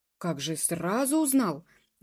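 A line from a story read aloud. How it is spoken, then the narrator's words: Somewhat cheered exclamation. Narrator (Russian): воскликнул домоправитель, несколько приободрившись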